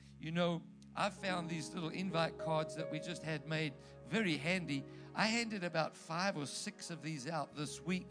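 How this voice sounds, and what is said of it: South African accent. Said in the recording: “the pharmacist, recognized my accent. She said, where are you from? I said, South Africa.”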